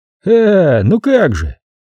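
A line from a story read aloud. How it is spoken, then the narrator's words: Cheerful drawl. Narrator (Russian): весело протянул Льюк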